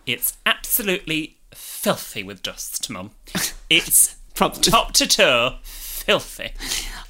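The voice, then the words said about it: Camp voice imitating another person. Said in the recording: “I love your impression of young me ... Camp Young Jordan”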